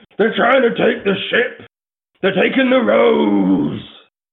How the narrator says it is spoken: he yells

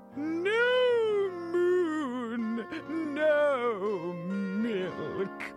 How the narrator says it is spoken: she bellowed

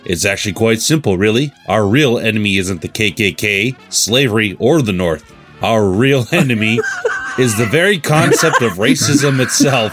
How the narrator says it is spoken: said Dr

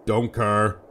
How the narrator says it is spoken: the figure grumbled

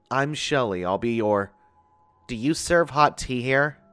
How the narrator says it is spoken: she interrupted in a nasal and stern voice

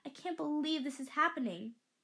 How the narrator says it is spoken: said excitedly, but I could detect the nervousness in her voice

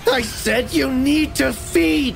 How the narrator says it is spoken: he shrieked, his voice cracking like a child's tantrum

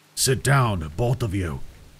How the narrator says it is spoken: Thaddeus growled

